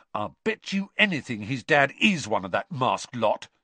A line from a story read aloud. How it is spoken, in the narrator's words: said Ron hotly